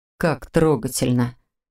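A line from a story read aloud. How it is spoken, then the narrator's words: Through gritted teeth. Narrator (Russian): Процедил Маркус, снова не сдержавшись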